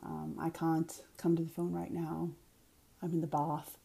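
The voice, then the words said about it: Upper-class British-sounding Boston accent. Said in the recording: “an upper class accent, which is somewhat British sounding. That's sort of the Kennedy accent.”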